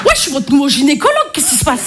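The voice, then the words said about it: Marseille French accent. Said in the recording (French): “l'accent, je suis marseillaise ... l'accent marseillais”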